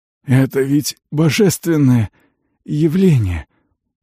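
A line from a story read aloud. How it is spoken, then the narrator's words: Hoarse. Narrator (Russian): прохрипел он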